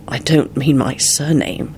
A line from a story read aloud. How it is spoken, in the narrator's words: he replied quietly